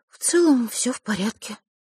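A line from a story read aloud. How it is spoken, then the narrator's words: Rueful sigh. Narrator (Russian): сокрушенно вздохнула Василиса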